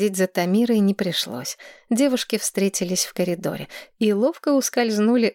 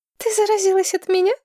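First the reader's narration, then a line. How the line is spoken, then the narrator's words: Giggling. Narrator (Russian): хихикнула Кодерс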